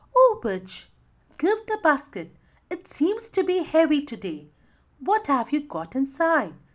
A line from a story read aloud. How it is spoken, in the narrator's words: asked sweetly